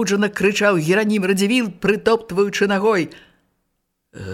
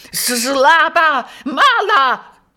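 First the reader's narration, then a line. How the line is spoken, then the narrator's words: Prince shouting. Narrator (Belarusian): крычаў князь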